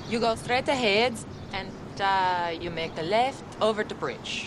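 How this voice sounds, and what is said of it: Austrian-accented English. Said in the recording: “That's a lovely accent you have. New Jersey? ... Austria.”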